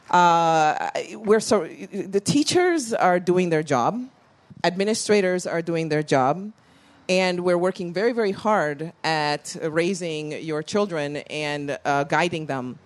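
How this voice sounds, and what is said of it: International mixed foreign accent. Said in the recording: “you can hear from my world accent that I've traveled the world, I've gone to schools in different countries”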